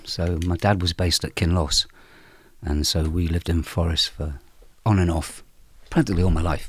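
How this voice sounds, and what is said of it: Speaks with a regional accent. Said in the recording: “where does your accent come from then?”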